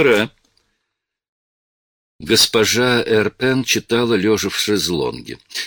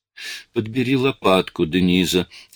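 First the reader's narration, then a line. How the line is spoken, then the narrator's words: Plain. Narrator (Russian): сказала госпожа Эрпен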